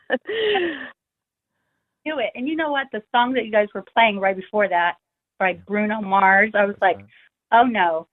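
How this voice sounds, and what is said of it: Californian American accent. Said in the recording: “We love your accent. We love the Californian attitude.”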